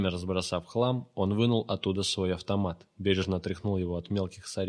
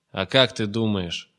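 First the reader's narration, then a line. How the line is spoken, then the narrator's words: Irritated snap. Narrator (Russian): огрызнулась Лика раздраженно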